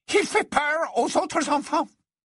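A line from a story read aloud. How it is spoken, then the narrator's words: Hurried, sudden. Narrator (French): elle dit soudain d'une voix précipitée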